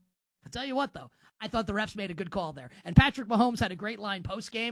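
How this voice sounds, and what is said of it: Usual voice. Nothing is said of it.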